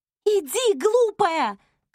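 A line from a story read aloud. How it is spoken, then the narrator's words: Shouted. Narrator (Russian): крикнула Сера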